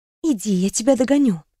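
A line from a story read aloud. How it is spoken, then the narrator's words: Whisper. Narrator (Russian): шепнула Даяне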